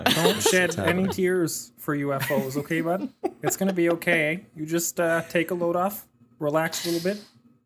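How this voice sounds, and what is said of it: Put-on Canadian accent. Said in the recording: “your Canadian accent”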